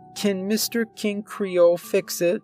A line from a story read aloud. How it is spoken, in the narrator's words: she asked sadly, like this was the absolute end of the world